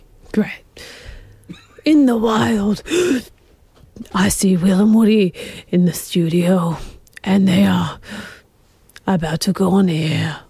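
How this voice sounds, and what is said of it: Breathy David Attenborough impression. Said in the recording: “your best David Attenborough impersonation ... What's with the breathing?”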